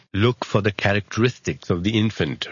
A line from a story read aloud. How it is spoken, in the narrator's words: replied the wizard